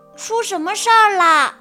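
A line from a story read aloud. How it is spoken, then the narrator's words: Loud question. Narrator (Chinese): 呱唧 大声问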